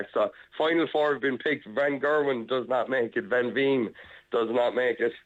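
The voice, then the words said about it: Excited voice. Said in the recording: “You sound excited”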